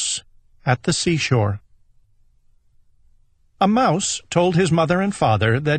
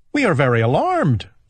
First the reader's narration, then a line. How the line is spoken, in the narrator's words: they cried